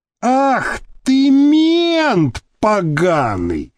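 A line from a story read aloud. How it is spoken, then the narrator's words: Howled. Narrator (Russian): взвыл косой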